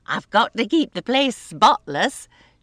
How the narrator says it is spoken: she said with a laugh

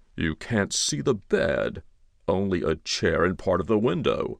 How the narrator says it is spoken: he said in a mildly complaining tone

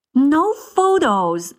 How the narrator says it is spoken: she exclaimed

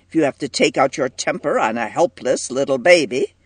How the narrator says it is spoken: went on John angrily

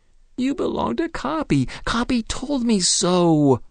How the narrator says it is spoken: wailed Wee Willie Winkie disconsolately

